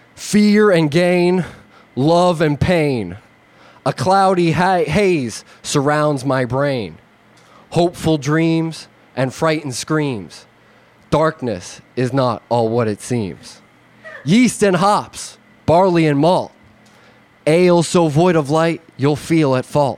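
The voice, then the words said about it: Put-on East Coast accent. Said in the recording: “my best Scott Levy East Coast accent”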